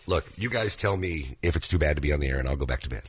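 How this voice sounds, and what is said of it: Unusually deep, low sick voice. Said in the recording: “deep voice because he was sick... low voices like that... that's a hot voice”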